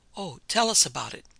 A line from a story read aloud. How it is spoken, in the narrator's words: Many of the ladies called out at the same time, so quickly that their voices sounded as one